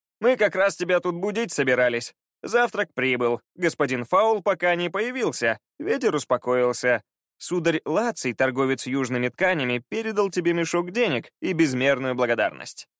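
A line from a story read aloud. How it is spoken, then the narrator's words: Brisk, cheerful report. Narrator (Russian): бодро отрапортовал Пит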